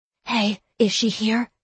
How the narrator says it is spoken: she whispered, looking furtively toward Miranda's office

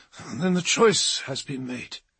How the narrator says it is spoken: slurred Ormond, his head reeling

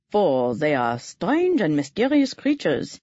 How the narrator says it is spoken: he continued in his scholarly voice

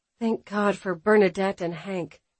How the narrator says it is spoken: Alexis sighed, not even realizing she had spoken those words aloud

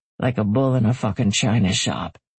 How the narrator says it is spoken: he muttered too low for Mom and Dad to hear

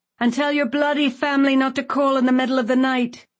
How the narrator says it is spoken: he yelled

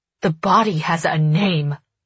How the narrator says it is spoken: I snarl when I collect myself

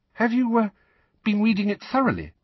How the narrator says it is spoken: Hermione asked, still more anxiously

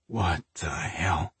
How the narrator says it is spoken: Mike said under his breath

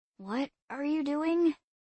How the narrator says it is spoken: she murmured

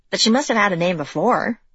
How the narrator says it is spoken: Izzy said

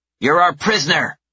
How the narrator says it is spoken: the smaller one shouts

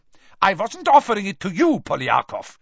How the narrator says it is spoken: snapped Karkaroff, his warmly paternal air vanishing in an instant

